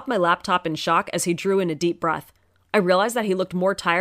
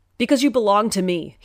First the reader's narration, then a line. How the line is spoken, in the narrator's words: he roared, the whole house shaking from his voice